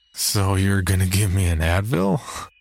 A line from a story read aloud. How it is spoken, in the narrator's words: Jerry slurred and he cackled out loud